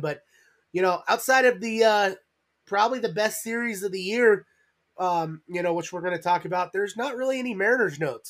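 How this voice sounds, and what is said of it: Crackly, slightly rough voice. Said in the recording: “my voice is a little crackly. I've been sick the last few days.”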